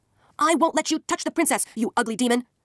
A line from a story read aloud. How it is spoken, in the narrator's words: shouted Isun Bushi